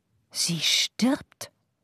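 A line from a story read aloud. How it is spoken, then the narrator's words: Breathy whisper. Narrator (German): hauchte Madame Chaffroy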